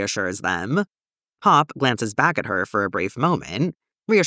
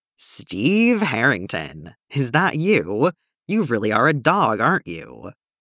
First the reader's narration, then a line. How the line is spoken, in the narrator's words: Lucas and Strider both growl menacingly